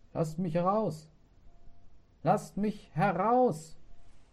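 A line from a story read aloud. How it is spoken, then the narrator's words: Muffled dull call. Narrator (German): wie es mit so einem recht dumpfen Ton rief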